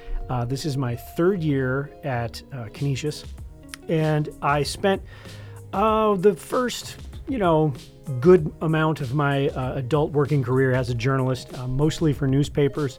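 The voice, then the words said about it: Slightly hoarse voice. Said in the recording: “I'm just getting over a cold, so I'm a little hoarse today.”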